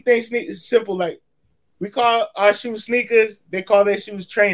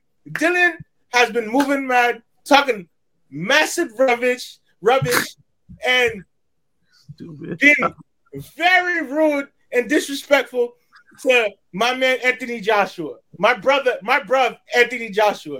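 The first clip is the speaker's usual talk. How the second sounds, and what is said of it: Attempted UK accent. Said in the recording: “I'm trying my best to sound my UK accent real quick.”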